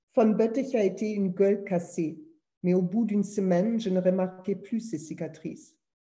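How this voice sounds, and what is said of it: Strong German accent speaking French. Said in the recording (French): “Pardon pour mon, accent terrible allemand, je, m'en débarrasse plus, c'est comme ça.”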